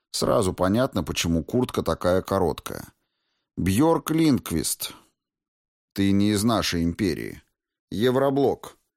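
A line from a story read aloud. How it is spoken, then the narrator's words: Curt, businesslike young woman. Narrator (Russian): говорила девушка отрывисто, по делу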